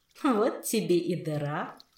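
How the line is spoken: Giggling inner voice. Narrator (Russian): хихикнул внутренний голос

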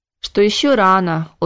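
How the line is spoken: Weary repetition. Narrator (Russian): устало повторил Макс

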